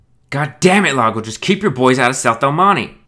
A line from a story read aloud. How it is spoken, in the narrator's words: screamed Johansson